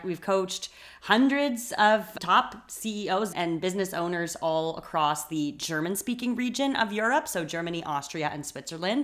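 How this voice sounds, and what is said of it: Canadian English accent. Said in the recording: “As you can hear from my voice, I am Canadian.”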